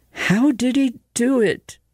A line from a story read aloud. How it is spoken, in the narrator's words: asked in a tired voice